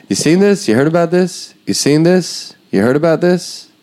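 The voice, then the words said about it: Imitates a comedian bombing onstage. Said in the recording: “That's my impression of a comedian bombing at a school for the blind and deaf.”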